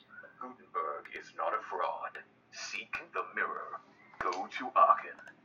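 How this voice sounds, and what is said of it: Very gravelly imitated voice. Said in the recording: “my Veronica impression ... I think she wishes she were that gravelly. I don't think she can quite be that gravelly.”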